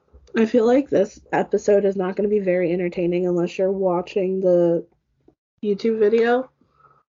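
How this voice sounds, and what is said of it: Hoarse voice. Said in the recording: “my voice is still hoarse”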